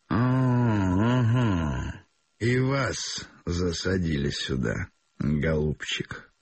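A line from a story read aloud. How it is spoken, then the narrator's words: Hoarse sleepy voice. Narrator (Russian): проговорил он сиплым спросонок голосом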